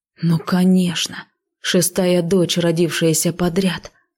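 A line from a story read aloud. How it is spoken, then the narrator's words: Muttering. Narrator (Russian): пробормотал Ив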